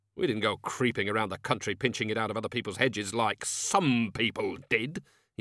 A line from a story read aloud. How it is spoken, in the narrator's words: he snapped